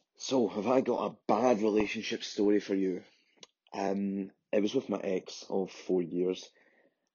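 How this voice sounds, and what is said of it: Glaswegian Scottish accent. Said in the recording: “let's try and decipher what he's actually saying with his accent ... I'm very good at Glaswegian”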